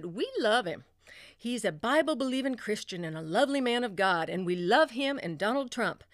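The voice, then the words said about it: Put-on Southern accent. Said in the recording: “although they're Irish, I want to give them a Southern accent when I quote them.”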